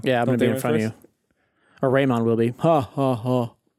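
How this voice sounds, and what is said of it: Imitates another person's voice. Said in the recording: “Good Raymond impression. ... That's my best impression.”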